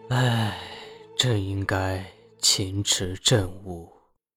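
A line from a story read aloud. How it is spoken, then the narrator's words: Soft sigh. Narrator (Chinese): 吕彻轻叹一声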